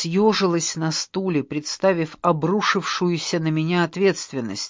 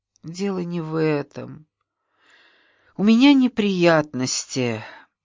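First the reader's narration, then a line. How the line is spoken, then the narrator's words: Suddenly trembling voice. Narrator (Russian): Неожиданно дрогнувшим голосом проговорила я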